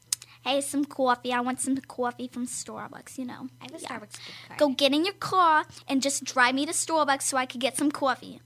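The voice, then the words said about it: Put-on New Jersey accent. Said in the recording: “I could do a New Jersey accent pretty well. New Jersey ... That pretty good.”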